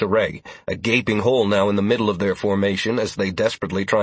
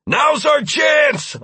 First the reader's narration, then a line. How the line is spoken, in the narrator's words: I shouted